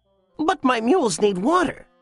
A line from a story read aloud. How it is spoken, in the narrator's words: cried the peasant